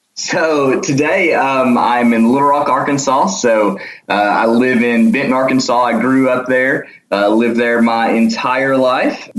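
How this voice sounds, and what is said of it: Arkansas Southern accent. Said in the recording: “Arkansas accent? ... Yes, correct, correct. ... Everybody tells me I do”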